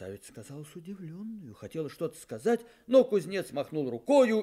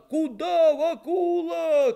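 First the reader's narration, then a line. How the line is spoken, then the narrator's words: Shouting young men. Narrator (Russian): кричали парубки в виде бегущего кузнеца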